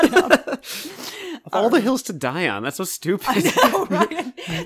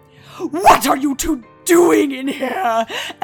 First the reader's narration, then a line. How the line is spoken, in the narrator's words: Elwing snapped